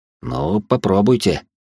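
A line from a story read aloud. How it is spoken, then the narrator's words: Skeptical grunt. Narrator (Russian): недоверчиво хмыкнул он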